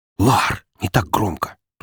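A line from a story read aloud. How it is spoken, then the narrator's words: Nervous whisper. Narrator (Russian): тут же зашептала нервно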